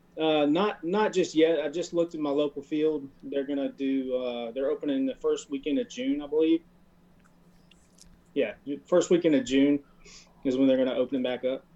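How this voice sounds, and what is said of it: Louisiana Southern US accent. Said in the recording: “Bossier City, Louisiana ... I couldn't even tell that with your accent”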